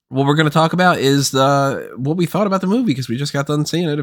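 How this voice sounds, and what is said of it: Sick, slightly odd-sounding voice. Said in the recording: “I'm a little under the weather right now, so my voice is going to sound a little weird. I'll probably be clearing my throat”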